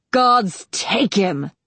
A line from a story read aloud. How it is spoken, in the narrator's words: He roared angrily